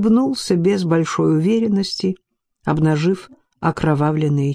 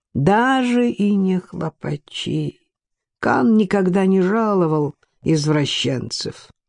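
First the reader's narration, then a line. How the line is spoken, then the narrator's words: Sad joke, academic. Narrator (Russian): печально пошутил академик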